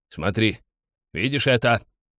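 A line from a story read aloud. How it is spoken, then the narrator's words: Loud bark. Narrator (Russian): гаркнул он соплеменнику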